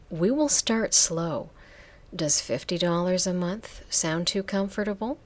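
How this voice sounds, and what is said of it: Seductive, sensuous voice. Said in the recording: “My voice is seductive and erotic... a voice to die for”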